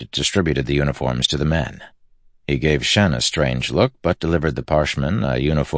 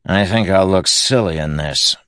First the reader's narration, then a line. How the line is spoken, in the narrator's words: Moash grumbled